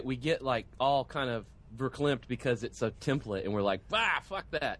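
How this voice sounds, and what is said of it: Mild Southern American accent. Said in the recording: “say verklempt in like a mild southern accent.”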